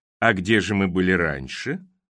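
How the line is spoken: Sly purr. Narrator (Russian): замурлыкал Криспин, похожий на лощеного подлого кота

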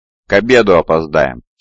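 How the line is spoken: Stern. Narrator (Russian): строго сказала Мариэля

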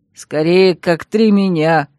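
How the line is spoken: Short laugh. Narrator (Russian): хохотнул Дикт

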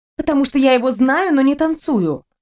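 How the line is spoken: Snapping retort. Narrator (Russian): огрызнулась я

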